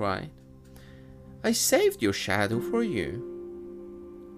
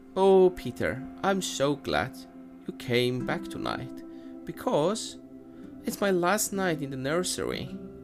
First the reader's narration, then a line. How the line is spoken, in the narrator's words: she added sadly